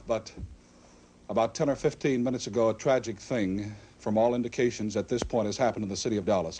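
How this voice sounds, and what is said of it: Out of breath. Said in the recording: “You'll excuse the fact that I'm out of breath ... And you'll excuse me if I am out of breath.”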